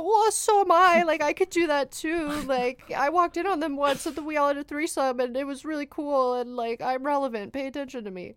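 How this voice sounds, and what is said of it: Jealous younger sibling character voice. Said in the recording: “my impression of someone who's just really jealous of their, like, right. older sibling. In the 50s.”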